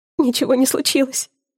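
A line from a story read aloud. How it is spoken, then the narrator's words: Sobbing. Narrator (Russian): всхлипываю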